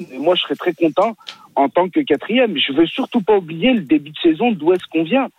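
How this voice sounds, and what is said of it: Regional French accent from Lyon area. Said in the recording (French): “il a vraiment l'accent lyonnais, on dirait ... Il n'a pas l'accent lyonnais ... t'as l'accent stéphanois”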